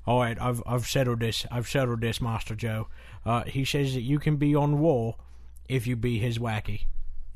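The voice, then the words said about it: Michael Caine impression. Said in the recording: “I'm trying to do a Michael Caine impression as William Regal.”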